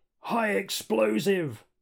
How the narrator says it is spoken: Dredd yells

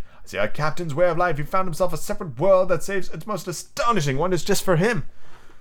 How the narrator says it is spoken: exclaimed

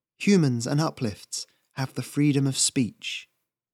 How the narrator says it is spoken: whispered

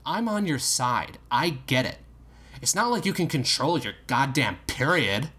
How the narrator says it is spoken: said firmly

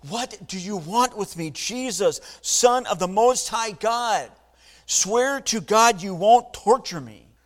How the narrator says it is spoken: He shouted at the top of his voice

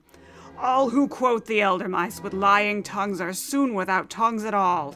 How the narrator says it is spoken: boomed

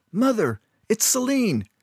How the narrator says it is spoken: screamed at the top of his lungs

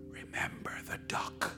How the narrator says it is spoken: she whispered to Johnny

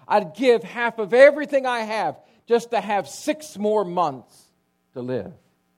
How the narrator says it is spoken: He cried out at one point in his life near death, he said

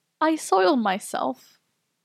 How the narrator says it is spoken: all I could squeak out was

